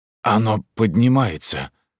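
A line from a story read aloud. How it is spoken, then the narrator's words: Hoarse rasp. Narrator (Russian): прохрипел Фишер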